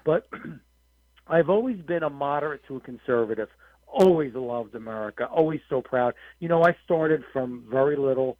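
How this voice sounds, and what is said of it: Strained, worn-out voice. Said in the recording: “Excuse my voice a little bit. I have been on the campaign trail and speaking to people and. Mm-hmm. Media all day, so if I lose it a little bit, it will come back.”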